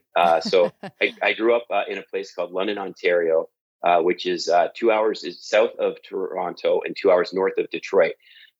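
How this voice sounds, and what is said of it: Canadian accent. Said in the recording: “if you haven't already noticed by my accent, I'm Canadian”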